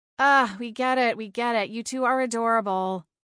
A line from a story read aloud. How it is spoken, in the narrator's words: Harmony groaned